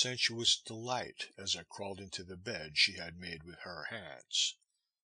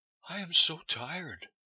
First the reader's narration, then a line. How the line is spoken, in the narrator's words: said with a quick intake of the breath and a sigh